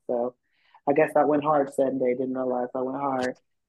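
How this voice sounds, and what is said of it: Strained, worn-out voice. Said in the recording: “my voice is kind of fucked up”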